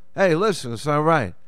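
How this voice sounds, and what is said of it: Tough Italian-American accent. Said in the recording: “put on the voice ... maybe a little tougher, maybe a little more Italian”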